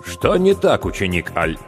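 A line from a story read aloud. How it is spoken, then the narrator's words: Stern question. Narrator (Russian): строго переспросил Томео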